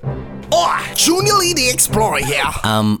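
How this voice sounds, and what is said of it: Unconvincing put-on accent. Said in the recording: “That accent is not good at all.”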